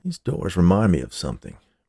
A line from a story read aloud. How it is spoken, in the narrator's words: Barry muttered, half to himself